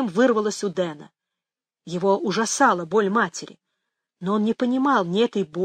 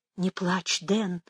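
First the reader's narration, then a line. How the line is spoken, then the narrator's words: Soothing whisper. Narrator (Russian): зашептала Мэгги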